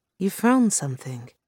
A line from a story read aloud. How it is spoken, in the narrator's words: Yamanaka breathed, staring